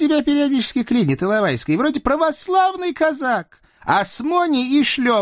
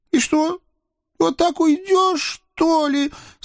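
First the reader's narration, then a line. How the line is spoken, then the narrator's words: Sobbing. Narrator (Russian): Со всхлипом раздалось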